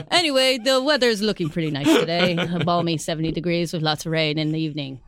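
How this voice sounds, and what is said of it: Put-on different voice. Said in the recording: “That is not a Welsh accent at all. At all, at all. I just do a different voice.”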